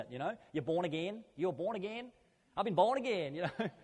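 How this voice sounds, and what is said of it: Put-on American accent. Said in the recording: “I don't know why I used an American accent with that”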